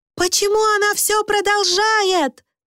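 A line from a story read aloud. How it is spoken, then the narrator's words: Shouting over loud gong. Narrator (Russian): прокричала Люси, потому что служанка управлялась с гонгом очень умело и теперь довела его до максимальной громкости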